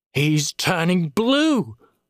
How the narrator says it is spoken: snarled through gritted teeth

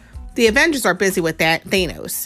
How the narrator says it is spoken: Ant-Man said

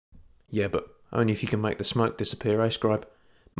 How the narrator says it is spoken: muttered Nathan in his ear

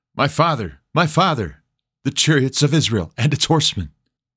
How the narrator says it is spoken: he cried

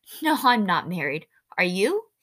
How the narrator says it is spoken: Winnie's turn to laugh

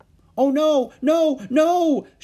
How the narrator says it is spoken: shouted Annie

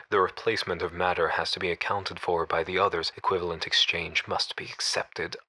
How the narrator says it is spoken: under his breath

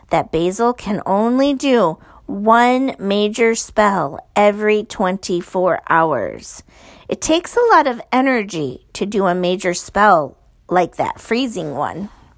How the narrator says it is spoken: said Prudence slowly

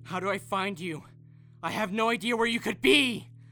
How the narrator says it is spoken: screamed, nearly blowing out the back of my throat

